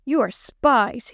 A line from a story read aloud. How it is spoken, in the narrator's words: shouted